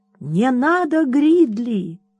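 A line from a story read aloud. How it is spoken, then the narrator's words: Sharp cry. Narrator (Russian): вскрикнула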